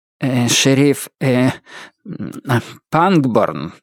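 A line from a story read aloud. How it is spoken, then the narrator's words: Stammering, hesitant. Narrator (Russian): преподобный отец Роуз был одним из тех дремучих баптистов, которые во время эмоционального напряжения начинают заикаться, бекать и мекать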